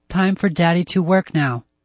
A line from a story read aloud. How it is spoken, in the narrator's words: Joe said to her in a flat voice